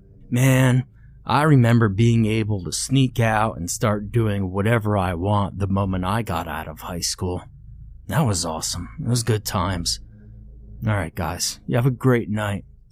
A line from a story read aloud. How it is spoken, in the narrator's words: Ray said, chuckling